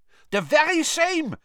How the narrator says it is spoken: said Karkaroff eagerly

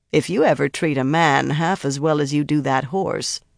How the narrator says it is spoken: Birgitta said dryly

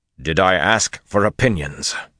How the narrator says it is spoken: Rand snapped harshly

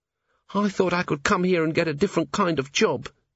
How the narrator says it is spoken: Cheery moaned

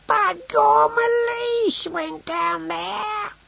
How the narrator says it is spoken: he wailed

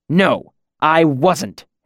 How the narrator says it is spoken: Hem snapped

